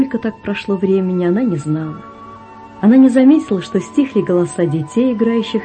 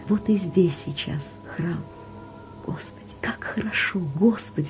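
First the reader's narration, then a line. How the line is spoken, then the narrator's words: Overwhelmed emotional whisper. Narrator (Russian): шептала Вера, не зная, что еще говорить от нахлынувшего чувства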